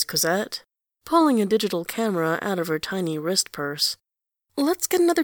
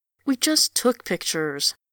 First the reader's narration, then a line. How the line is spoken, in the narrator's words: he whines